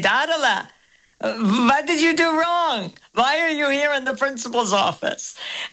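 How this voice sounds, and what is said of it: Accented impression of an elderly grandfather. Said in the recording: “very good Zadie accent”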